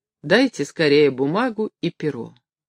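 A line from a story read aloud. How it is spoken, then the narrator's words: Firm voice. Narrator (Russian): она твердым голосом сказала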